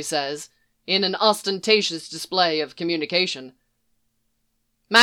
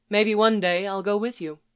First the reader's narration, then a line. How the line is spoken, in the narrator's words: she says